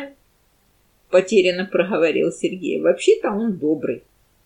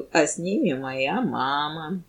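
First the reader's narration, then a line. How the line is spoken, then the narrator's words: Gloomy. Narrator (Russian): Рома мрачно добавил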